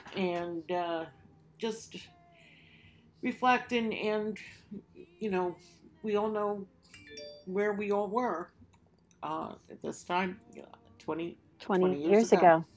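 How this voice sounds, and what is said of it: Emotional, slightly shaky voice. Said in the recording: “It's an emotional day, obviously. You can hear it in my voice a little bit.”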